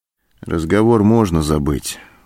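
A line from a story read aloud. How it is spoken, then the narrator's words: Dejected voice. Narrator (Russian): упавшим голосом сказал Антон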